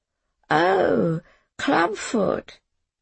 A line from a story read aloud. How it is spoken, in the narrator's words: her voice slurred